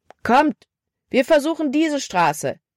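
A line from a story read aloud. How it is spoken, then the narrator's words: Called out. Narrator (German): rief Caleb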